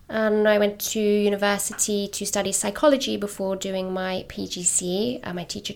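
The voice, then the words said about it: Non-New York, London accent. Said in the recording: “your accent kind of gives you away as not being a local New York kind of girl”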